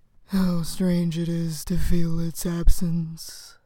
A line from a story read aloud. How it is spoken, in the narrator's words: After a rumbling, gasping breath, the lindworm said